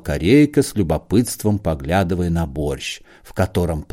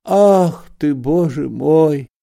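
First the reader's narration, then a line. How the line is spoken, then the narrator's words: Old man groaning. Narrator (Russian): застонал старик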